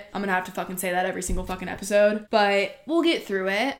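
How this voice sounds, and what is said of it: Hoarse, strained voice. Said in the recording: “probably sound a little insane. I lost my voice ... screamed the whole time, lost my voice”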